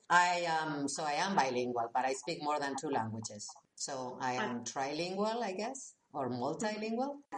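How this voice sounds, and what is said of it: Strong non-native English accent. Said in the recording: “I speak with a strong accent, right? So you already see that English is not my native language.”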